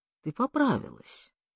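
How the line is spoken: Thoughtful. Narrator (Russian): задумчиво проговорил он

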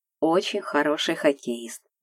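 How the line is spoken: Soft male voice. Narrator (Russian): мягко сказал он

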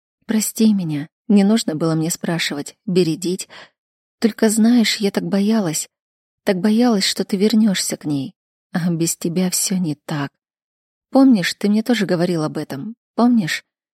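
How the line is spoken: Tearful whisper, parched lips. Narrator (Russian): Шептала запекшимися губами, с ресниц капают слезы

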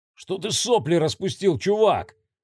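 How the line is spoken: Shouted. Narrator (Russian): крикнул

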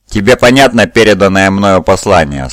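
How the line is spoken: Plain. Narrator (Russian): спросил он

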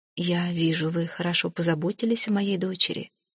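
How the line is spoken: Said kindly by a lady. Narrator (Russian): сказала госпожа, ласково

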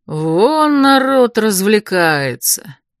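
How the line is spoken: Drawl. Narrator (Russian): протянул Ривель

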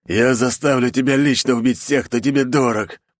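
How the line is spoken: Lanky man growling. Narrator (Russian): прорычал жердяй

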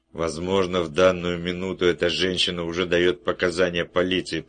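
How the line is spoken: Grumbling. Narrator (Russian): проворчал он

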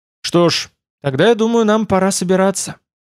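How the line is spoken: Sighing. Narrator (Russian): вздохнула Домесса Нерра

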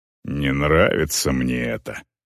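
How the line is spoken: Male muttering. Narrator (Russian): пробормотал он

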